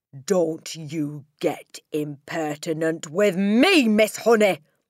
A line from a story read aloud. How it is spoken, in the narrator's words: the Trunchbull snapped